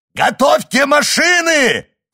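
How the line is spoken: Yelling. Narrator (Russian): заорал он

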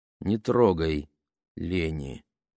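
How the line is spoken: Calm. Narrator (Russian): спокойно проговорила она

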